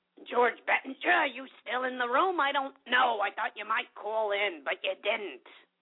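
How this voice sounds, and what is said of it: Gilbert Gottfried impression. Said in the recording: “That was my Gilbert Godfrey impersonation.”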